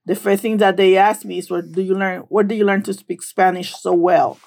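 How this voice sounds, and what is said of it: Very strong accent. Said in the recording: “I do have a very strong accent and I'm very aware of that”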